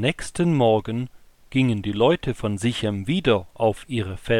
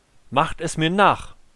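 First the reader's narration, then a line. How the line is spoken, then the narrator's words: Calling out. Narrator (German): rief er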